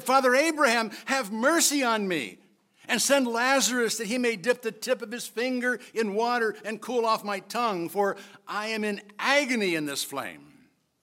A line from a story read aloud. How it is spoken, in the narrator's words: he cried out and said